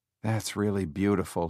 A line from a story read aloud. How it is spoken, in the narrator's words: he murmured